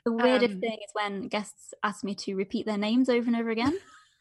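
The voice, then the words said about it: British English accent. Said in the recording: “I just love your accent. And I've spent a lot of time in the UK, but I will never get over the accent. ... So beautiful.”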